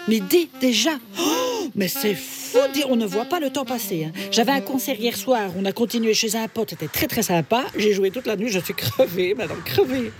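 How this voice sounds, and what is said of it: Put-on Belgian French accent. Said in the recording (French): “pourquoi tu parles avec cet accent bizarre ? ... Gudule de Belgique. Ah ben voilà, c'est peut-être pour ça que j'ai un accent”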